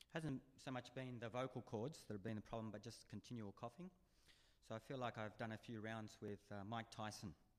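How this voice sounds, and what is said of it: Hoarse, laryngitis-affected voice. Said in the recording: “You can probably pick up in my voice. I've had laryngitis.”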